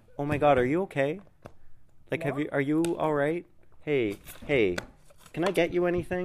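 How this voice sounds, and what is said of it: Exaggerated caring impression of himself. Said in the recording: “Here's my impression of me off the podcast ... that's me off the podcast”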